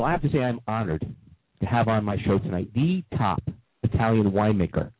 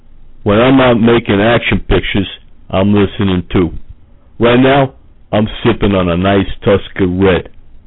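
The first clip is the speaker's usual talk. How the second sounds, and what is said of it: Imitates another person's voice. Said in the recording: “Sly Stallone ... only celebrity impersonators”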